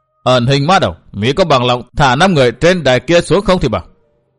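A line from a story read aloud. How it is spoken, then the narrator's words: Old man's sudden shouted question. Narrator (Vietnamese): lão già áo xám đã thình lình quát hỏi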